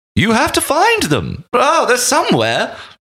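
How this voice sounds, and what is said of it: High-pitched English accent impression. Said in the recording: “he almost sounds like C-3PO, basically... a very like a high-pitched English accent.”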